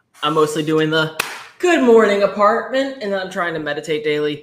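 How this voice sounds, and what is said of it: Out of breath. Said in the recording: “out of breath as fuck”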